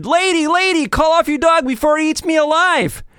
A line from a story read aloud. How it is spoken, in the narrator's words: The mailman shouted